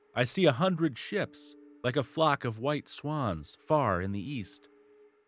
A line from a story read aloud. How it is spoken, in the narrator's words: cried